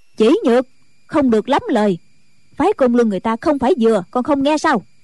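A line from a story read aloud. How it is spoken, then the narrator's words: Loud scolding. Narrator (Vietnamese): Diệt Tuyệt sư thái cũng lớn tiếng mắng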